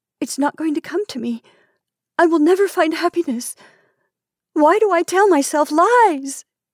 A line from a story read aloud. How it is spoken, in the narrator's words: She cried, and an odd sense of relief came with this